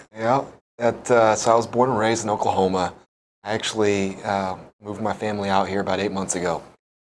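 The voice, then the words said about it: Mainland American accent, not Hawaiian. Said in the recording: “the accent you just spoke is not from Hawaii”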